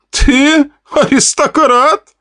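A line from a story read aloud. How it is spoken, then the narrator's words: Laughing. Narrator (Russian): рассмеялся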